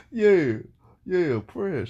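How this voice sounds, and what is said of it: Imitates another person's voice. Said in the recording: “Horrible impersonation.”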